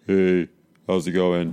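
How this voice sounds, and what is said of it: Deep, sexy male voice. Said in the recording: “Deep, sexy voice.”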